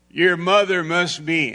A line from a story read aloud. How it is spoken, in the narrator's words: The woman was compelled to shout out in the crowd